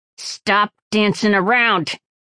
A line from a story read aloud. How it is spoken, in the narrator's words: Sparrow growled